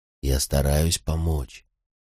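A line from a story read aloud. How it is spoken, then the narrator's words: Whispering. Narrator (Russian): нашептывал я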